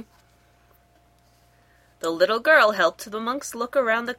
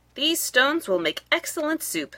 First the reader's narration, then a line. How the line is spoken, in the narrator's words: said Sue